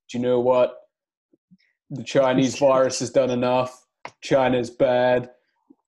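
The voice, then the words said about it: Imitates another person's voice. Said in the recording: “Your Trump accent.”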